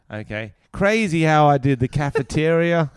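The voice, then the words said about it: Put-on Canadian accent. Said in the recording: “Can I do a Canadian accent?”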